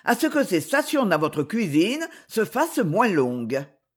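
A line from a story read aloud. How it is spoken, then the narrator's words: Curt reply. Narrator (French): répondit sèchement Mademoiselle Alice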